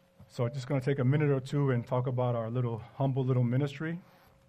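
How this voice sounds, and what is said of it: Weak, tired voice. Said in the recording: “My voice is a little weak after lunch”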